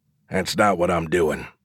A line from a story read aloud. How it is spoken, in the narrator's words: I muttered